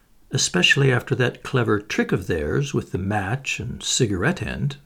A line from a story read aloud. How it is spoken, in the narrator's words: murmured Poirot